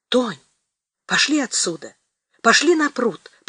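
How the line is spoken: Whispered. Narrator (Russian): прошептал

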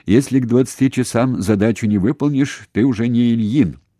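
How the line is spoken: Shouting over phone. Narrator (Russian): Туманян по телефону кричал

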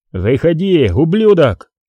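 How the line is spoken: Shouted into darkness. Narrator (Russian): выкрикнул Крис в темноту

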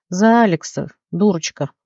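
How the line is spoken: Sighing. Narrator (Russian): вздохнул гном

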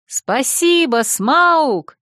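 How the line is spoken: Excited, adrenaline-fueled shout. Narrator (Russian): закричала я ему вслед, чувствуя, как клокочет в крови адреналин

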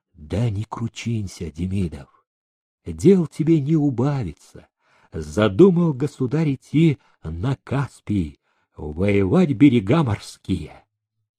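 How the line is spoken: Whisper. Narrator (Russian): Меншиков прошептал заводчику

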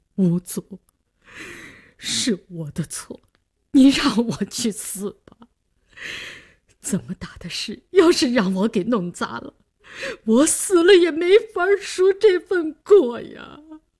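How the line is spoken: Suppressed sobbing. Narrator (Chinese): 李大公压抑的哭腔

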